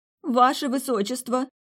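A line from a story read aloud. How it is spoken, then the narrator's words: Pleading. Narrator (Russian): Взмолилась мерзавка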